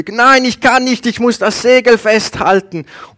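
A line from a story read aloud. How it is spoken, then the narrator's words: Calling back. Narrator (German): Der ruft zurück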